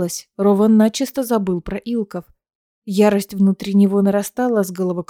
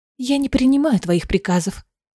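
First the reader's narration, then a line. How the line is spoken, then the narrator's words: Quiet. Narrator (Russian): тихо сказала ему Аэлина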